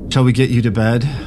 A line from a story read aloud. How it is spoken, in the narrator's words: yawned